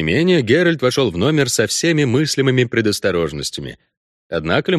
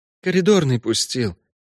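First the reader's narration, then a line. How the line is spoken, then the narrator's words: Whisper. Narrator (Russian): прошептал Лимон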